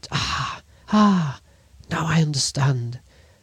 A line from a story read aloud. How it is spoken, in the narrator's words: She gave a start and exclaimed